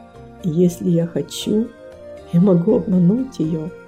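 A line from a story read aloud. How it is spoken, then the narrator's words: Quiet, to himself. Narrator (Russian): Он тихо произнес, как будто про себя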